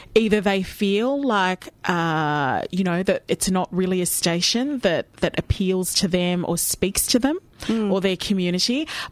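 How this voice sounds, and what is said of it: Australian accent. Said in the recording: “my privilege is my accent. I mean, I was born and bred here in Melbourne ... Australian accent”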